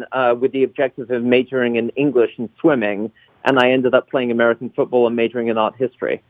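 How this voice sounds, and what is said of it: Foreign, non-American accent. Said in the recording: “why would anyone with this kind of an accent like American football?”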